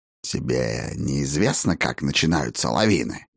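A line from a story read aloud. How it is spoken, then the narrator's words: Hoarse croak, raven. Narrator (Russian): Хрипло каркнул ворон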